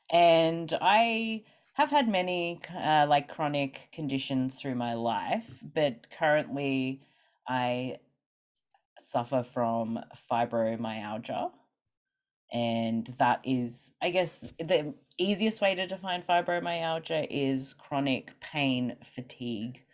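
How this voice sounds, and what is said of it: Australian accent. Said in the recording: “I'm from Australia, which maybe people can hear from my accent.”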